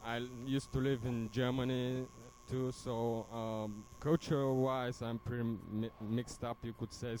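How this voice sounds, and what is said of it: Bulgarian accent. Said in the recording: “My accent is Bulgarian because I'm from Bulgaria.”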